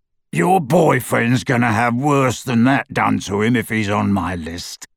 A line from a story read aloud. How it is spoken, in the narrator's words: said the horribly familiar rasping voice